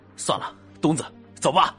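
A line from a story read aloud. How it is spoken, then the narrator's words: Low growl from thug. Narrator (Chinese): 两个歹徒中的一个冲另一个低吼了一声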